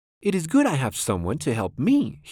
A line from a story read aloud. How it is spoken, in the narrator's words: said